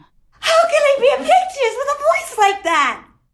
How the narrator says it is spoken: she wailed

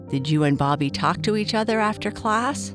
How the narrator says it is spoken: Papa Bear asked

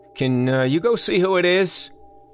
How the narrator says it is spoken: he yelled back

